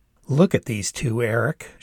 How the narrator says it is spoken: said, laughing a little

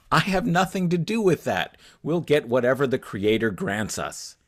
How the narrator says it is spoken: Each wife exclaimed

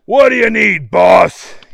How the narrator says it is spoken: he yelled

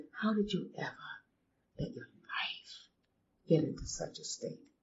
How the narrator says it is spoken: she leaned over me and quietly said

